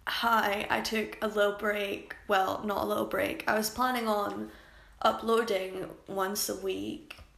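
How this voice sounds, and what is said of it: Cracked, strained voice. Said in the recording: “my voice is already cracked”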